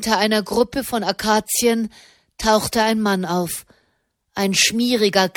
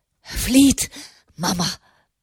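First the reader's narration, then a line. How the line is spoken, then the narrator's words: Panting. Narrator (German): keuchte er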